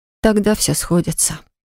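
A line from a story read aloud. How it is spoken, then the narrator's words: Dejected tone. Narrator (Russian): произнесла я упадническим тоном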